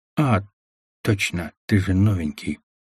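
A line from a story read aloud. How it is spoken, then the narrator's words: Quiet. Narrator (Russian): тихо проговорил механик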